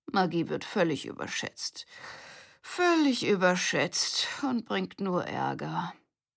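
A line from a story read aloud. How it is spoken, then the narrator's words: Muttering to himself. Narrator (German): murmelte Grandpa vor sich hin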